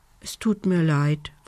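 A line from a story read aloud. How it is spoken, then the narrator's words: Soft whisper. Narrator (German): flüsterte Lumbi leise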